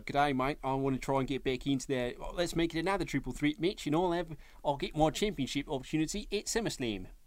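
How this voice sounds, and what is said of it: Poor put-on Australian accent. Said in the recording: “Terrible Australian accent”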